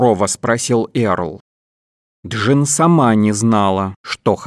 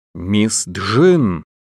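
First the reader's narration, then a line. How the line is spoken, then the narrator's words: Angrily raised voice. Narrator (Russian): сердито повысила голос Блейскейл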